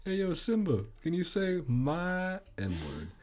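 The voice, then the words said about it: Imitation of a schoolmate's accent. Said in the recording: “what was his accent at the time? You know, I can't imitate it very well.”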